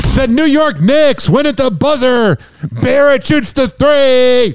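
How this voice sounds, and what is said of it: Live sports broadcaster impression. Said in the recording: “That was also an impersonation of Scott Farrell doing a live show.”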